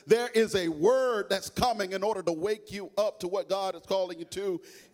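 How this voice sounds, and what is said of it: Speaks with a noticeable accent. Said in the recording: “maybe you may be thrown off by my accent”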